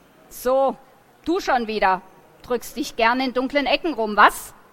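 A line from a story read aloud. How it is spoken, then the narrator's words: Hissing. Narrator (German): fauchte Coswig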